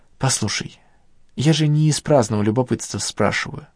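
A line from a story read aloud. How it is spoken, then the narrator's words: Gentle reminder. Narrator (Russian): мягко напомнила Надежда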